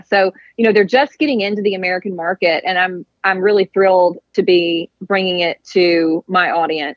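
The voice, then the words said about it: Mississippi Southern accent. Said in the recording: “I love your really accent ... I speak Mississippian”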